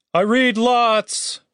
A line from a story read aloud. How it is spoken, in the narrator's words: Chaz shouted after her